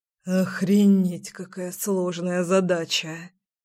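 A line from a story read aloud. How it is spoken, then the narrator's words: Serious exhaled words. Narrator (Russian): Вполне серьезно выдохнул мой сильный и невероятно нежный парень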